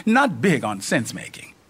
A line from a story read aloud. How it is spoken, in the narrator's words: Izzy chuckles